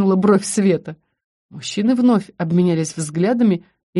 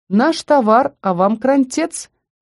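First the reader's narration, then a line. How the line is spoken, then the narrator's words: Cheerful. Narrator (Russian): весело добавил Зардис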